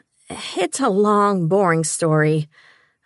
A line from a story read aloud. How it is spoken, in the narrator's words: I sighed airily